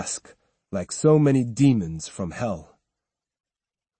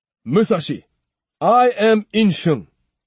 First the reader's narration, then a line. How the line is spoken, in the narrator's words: shouted the same priest